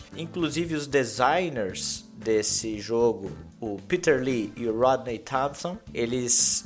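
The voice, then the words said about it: English accent on names. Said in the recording (Portuguese): “Baita sotaque.”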